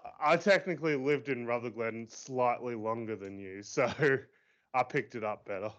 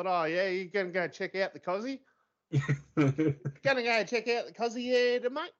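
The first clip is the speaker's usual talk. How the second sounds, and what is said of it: Broad bogan Australian accent. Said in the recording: “better bogan Australian accent”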